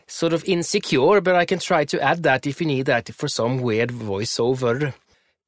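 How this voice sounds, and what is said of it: Exaggerated Swedish sing-song accent. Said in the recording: “do the Swedish voice. If you need the Swedish melody, I can do a bit of this.”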